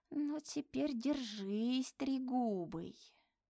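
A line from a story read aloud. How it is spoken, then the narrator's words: Muffled indistinct mutter. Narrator (Russian): Женечка приложил к лицу снежный ком и невнятно пробормотал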